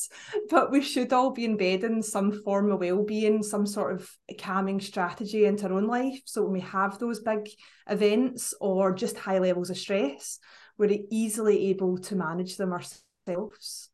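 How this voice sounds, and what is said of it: Scottish accent. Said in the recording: “I know you couldn't guess from my accent, but up in Scotland”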